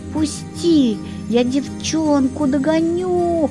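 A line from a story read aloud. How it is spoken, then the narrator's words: Pleading. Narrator (Russian): взмолилась к лешему кикимора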